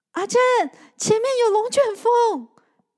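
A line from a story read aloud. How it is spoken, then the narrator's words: Loud shout. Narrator (Chinese): 玉环大叫着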